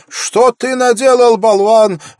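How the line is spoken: Angry shout. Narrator (Russian): в гневе закричала она

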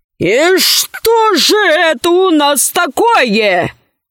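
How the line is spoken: Menacing question. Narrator (Russian): грозно спросил Бакштир

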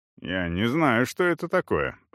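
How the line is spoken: Mumbled with full mouth. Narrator (Russian): пробормотал с набитым ртом Эсон

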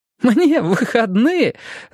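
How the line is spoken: Laughing loudly. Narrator (Russian): захохотала Мия

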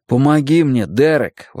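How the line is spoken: Exclaiming. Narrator (Russian): воскликнул я

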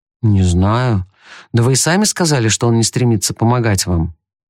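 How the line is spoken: Gloomy reply. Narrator (Russian): мрачно отозвался Том

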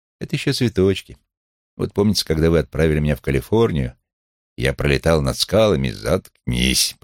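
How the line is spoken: Grumbled. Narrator (Russian): проворчал он

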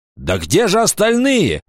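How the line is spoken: Angry shout. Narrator (Russian): сердито крикнул Вольф

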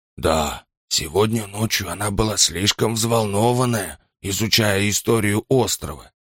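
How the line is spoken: Quiet, not to be overheard. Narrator (Russian): тихо произнес Асад, не желая, чтобы Роза его услышала

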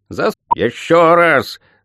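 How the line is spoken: Growled. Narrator (Russian): рыкнула ведьма

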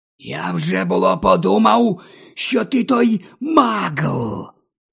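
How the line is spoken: Hissed. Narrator (Ukrainian): просичав Мортін

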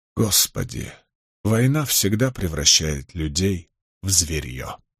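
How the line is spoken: Muttering, older woman. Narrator (Russian): пробормотала тетушка Эверник

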